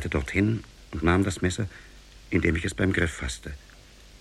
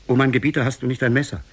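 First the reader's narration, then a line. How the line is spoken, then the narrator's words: Calling out to him. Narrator (German): rief ihm zu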